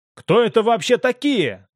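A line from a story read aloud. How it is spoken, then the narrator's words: Shouted from back seat. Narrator (Russian): крикнул Дрейк с заднего сиденья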